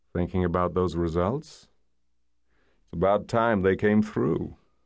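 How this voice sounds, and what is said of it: Low gravelly American male voice. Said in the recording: “low, gravelly American accent”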